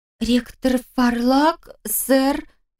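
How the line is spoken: Frightened babble. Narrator (Russian): испуганно пролепетала неизвестная мне подруга Реджина

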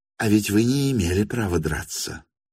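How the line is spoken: Whispered. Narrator (Russian): шепнул он Ставрогину

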